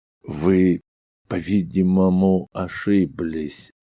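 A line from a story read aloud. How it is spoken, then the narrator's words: Slow, uneasy. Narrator (Russian): медленно проговорил Элдридж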